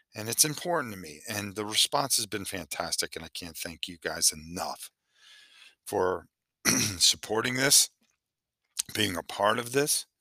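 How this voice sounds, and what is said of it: Tired, worn late-night voice. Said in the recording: “sorry for my voice, but it is 3:30 in the morning here”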